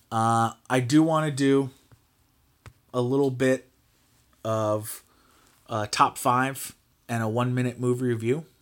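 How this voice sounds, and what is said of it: Slightly hoarse voice. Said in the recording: “That was 46 minutes of me yelling at my computer. I'm a little hoarse.”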